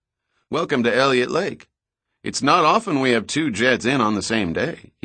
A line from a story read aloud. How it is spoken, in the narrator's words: he said in a friendly, rural voice